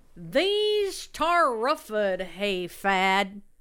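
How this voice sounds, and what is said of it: Put-on hick rural accent. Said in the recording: “Why are you using a hick accent?”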